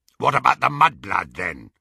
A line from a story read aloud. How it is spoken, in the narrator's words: growled Greyback